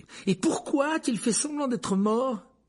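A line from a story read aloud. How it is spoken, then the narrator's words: Furious cry. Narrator (French): s'écria-t-il avec fureur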